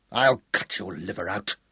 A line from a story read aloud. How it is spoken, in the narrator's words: William grunted